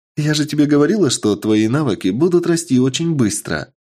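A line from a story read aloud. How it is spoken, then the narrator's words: Joyful. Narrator (Russian): Радостно говорит Андромеда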